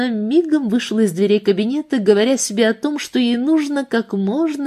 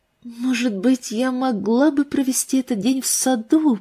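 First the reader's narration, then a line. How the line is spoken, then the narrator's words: Whispered to herself. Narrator (Russian): прошептала она сама себе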